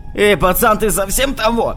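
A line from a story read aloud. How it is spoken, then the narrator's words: Shouting. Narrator (Russian): закричал на меня он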